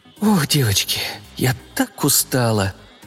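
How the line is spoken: Sigh. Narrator (Russian): вздохнула Леночка

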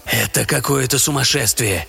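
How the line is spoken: Whispered. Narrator (Russian): шептал Уизерс

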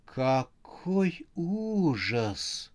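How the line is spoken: Breathless exclamation. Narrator (Russian): выдохнула Харя

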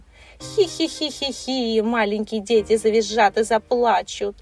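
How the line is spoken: Gleeful. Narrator (Russian): радовалась Кикимора

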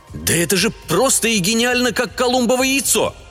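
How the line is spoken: Joyful exclamation. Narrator (Russian): радостно воскликнул наконец сеньор Альфио

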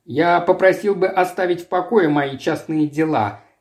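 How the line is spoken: Sharp. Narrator (Russian): резко сказал

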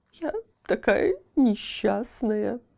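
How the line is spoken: Sobbing. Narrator (Russian): рыдала она

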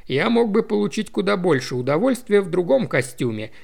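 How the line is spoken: Grumble. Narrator (Russian): проворчал Томми

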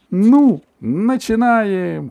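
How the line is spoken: Shouted. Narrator (Russian): крикнула она

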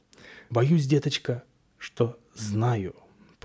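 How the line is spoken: Old woman's near whisper. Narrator (Russian): почти шепотом произнесла старуха

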